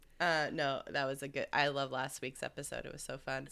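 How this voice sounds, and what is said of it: Hoarse voice from a cold. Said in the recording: “I sound terrible. Sorry for my cold voice. ... cold voices is your sexy voice ... Kathleen Turner, is that you?”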